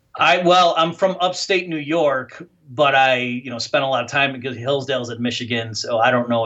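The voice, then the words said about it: Great Lakes Midwestern accent. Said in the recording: “your accent reminds me of like Illinois, like the Great Lakes region, Wisconsin, Chicago, you know, Michigan”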